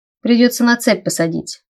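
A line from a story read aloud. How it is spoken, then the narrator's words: Gloomy reply. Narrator (Russian): мрачно ответил Райнер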